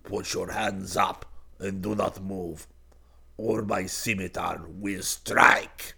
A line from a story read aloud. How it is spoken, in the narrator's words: a low, deep voice behind him growled in Turkish